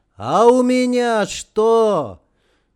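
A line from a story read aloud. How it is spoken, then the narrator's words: Shout, voice breaking. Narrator (Russian): Романов крикнул срывающимся голосом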